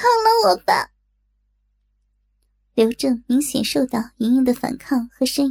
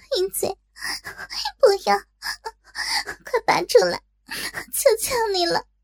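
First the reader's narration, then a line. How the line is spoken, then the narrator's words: Anguished crying plea. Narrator (Chinese): 莹莹……心中痛苦万分……哭着道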